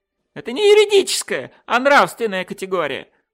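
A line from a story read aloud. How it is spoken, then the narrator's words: Shrill squeal. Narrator (Russian): взвизгнул доктор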